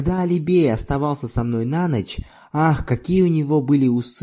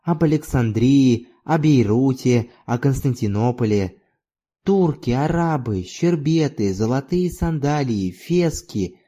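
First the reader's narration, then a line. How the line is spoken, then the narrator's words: Sighing. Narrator (Russian): Она снова вздохнула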